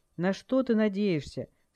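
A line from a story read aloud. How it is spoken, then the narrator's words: Angry, clipped. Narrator (Russian): Скай говорил теперь зло и отрывисто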